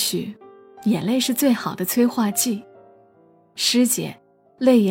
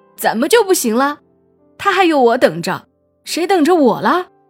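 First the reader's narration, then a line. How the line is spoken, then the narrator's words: Crying, shouting ever louder. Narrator (Chinese): 大壮坐在地上，莫名其妙的哭了起来，越哭声音越大，边哭边喊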